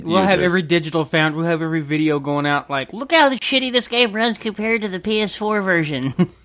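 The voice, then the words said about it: Imitating a PlayStation fanboy. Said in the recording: “I pretty much think I nailed the PlayStation fanboy.”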